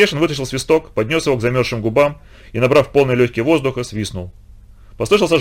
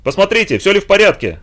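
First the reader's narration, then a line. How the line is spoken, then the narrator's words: Strained shout. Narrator (Russian): напрягая голос, крикнул он матросу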